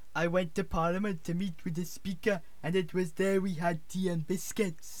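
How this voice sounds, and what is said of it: Put-on sing-song Welsh accent. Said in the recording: “I've got Welsh ... Bit singy-songy. ... Bit Fireman Sam.”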